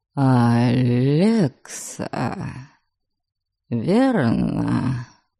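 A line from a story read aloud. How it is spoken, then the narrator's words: Weak voice. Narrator (Russian): Слабым голосом осведомился Дориан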